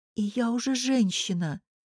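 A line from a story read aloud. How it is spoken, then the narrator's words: Quiet addition. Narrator (Russian): тихо добавила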